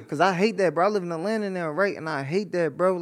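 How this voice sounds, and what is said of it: Philadelphia accent. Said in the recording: “you know how I can tell you're really from Philly? It's the accent”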